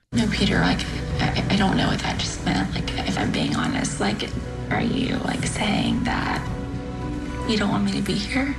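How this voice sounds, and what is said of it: Vocal fry reality-show contestant voice. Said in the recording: “Everyone on the show has vocal fry. ... And they whisper.”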